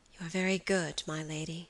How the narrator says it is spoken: Phoebe answered with a sigh

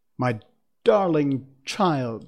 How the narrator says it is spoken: she cried

